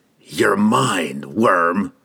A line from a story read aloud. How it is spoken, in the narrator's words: he snarled under his breath